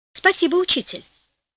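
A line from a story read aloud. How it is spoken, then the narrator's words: Naive exclamation. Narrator (Russian): воскликнул простодушно Флорио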